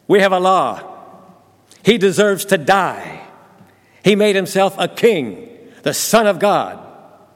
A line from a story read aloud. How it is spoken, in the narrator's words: They shouted at Pilate